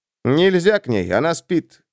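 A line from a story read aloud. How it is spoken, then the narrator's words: Plain. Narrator (Russian): сказал брат-лекарь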